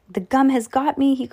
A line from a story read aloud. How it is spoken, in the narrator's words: he cried